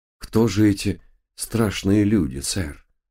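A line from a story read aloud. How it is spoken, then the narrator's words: Sighing. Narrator (Russian): вздохнул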